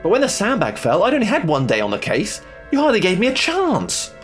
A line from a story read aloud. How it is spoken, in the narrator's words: I whined